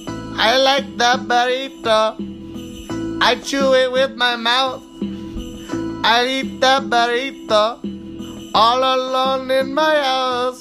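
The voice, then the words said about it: Put-on Spanish accent. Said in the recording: “I sound very offensive when I do the Spanish voice.”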